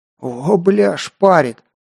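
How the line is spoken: Hoarse, nearby. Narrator (Russian): прохрипел рядом Кир

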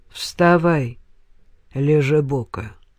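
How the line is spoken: Tired. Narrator (Russian): устало сказал

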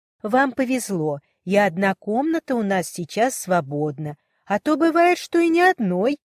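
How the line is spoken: Cheerful laughter. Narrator (Russian): Она весело рассмеялась

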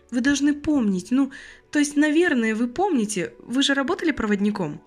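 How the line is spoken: Sudden, frightened, young woman. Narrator (Russian): Вдруг испуганно решила уточнить девушка

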